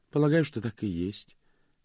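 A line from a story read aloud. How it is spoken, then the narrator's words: Uncertain reply. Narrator (Russian): неуверенно ответила Клэр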